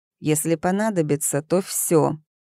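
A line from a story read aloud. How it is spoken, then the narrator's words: Hissed. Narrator (Russian): прошипел ловец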